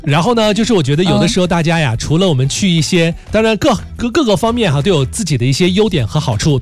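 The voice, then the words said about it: Strong Northeastern Chinese accent. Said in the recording (Chinese): “你这大碴子味儿一听就怎么还福建的呢？...这东北口音这么严重呢？”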